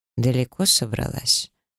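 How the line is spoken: Icy question. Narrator (Russian): ледяным тоном интересуется Таир

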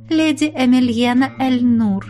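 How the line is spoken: Charming little voice. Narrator (Russian): чарующим голоском представилась она

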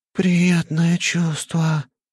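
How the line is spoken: Moaning spider creature. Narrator (Russian): простонала паучиха

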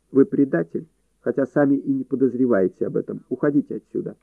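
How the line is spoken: Unexpectedly calm. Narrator (Russian): неожиданно спокойно проговорил

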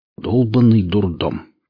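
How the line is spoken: Grumbling. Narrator (Russian): проворчал Валдис

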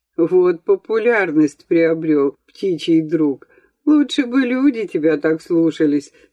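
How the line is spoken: Laughing. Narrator (Russian): смеялся Никольский

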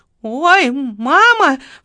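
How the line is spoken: Startled cry. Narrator (Russian): вскрикнула секретарша

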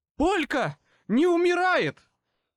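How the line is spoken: Yelling. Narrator (Russian): Орал Баттерс

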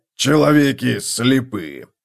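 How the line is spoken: Growled. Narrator (Russian): прорычал Готрек

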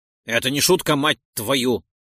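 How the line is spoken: Snapping. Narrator (Russian): почему-то огрызнулся Ролдон

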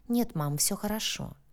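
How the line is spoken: Soft smiling. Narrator (Russian): мягко улыбнулась Соня

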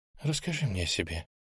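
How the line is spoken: Sudden quiet near-whisper. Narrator (Russian): вдруг негромко, почти шепотом попросила моя спутница

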